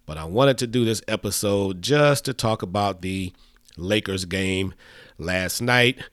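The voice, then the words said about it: Sick, unwell-sounding voice. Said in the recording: “as you can tell by my voice, I am so far under the weather.”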